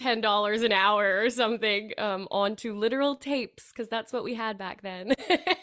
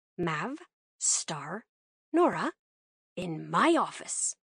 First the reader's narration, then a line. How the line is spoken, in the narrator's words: he growled